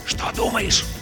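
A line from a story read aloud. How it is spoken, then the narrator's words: Bear cub's hot whisper. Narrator (Russian): жарким шепотом спросил медвежонок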